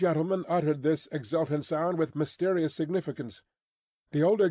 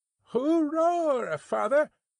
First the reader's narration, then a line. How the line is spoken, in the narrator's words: cried young Jerry